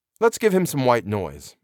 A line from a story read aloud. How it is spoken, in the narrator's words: I said